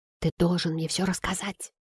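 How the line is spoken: Whisper. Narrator (Russian): прошептала она

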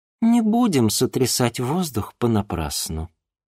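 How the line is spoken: Calm. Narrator (Russian): спокойно сказала Ольга Эдуардовна

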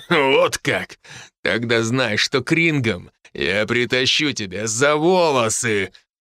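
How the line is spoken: Deep guttural bass. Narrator (Russian): утробным басом пообещал Херифорд

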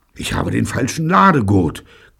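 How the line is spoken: Panting gasp. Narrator (German): keuchte Neil

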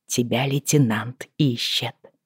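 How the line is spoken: Close hiss. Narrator (Russian): прошипела я

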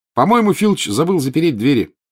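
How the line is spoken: Cheerful. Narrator (Russian): бодро сообщил Гарри

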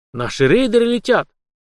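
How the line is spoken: Excited exclamation. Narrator (Russian): возбужденно воскликнул Ким

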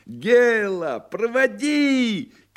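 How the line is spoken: Shouting. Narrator (Russian): кричал Коровьев

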